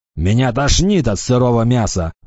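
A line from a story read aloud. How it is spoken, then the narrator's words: Grumbled, orc. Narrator (Russian): заворчал орк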